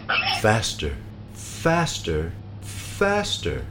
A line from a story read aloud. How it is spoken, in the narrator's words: He just laughed and said